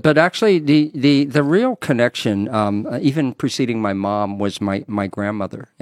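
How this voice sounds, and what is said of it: North Carolina accent. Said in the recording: “you still have that yeah. North Carolina accent.”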